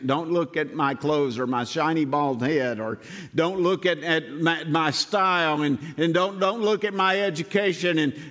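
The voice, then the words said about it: Heavy Southern US accent. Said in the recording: “my heavy Southern accent.”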